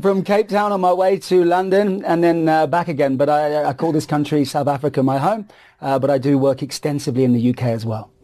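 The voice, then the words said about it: Noticeable foreign accent. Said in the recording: “you've got the accent.”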